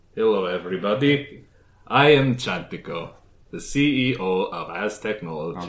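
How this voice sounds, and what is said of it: Put-on Polish-sounding villain accent. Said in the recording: “There's another Polish. ... a different accent for the main villain instead of having it sound something super similar to the ancient one”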